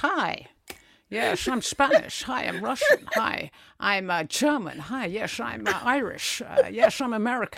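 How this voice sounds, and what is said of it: Sean Connery impression, Scottish-sounding accents. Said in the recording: “Sean Connery's Spanish accent, which sounded very Scottish. ... Sean Connery's Spanish accent.”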